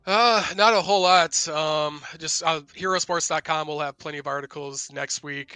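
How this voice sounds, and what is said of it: Strained, unwell-sounding voice. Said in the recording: “hopefully my voice is a little better”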